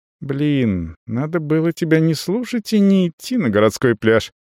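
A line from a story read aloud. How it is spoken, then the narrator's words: Thoughtful speech. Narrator (Russian): задумчиво говорит Лена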